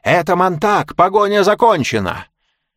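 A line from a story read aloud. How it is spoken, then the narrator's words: Shouting. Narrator (Russian): Голос закричал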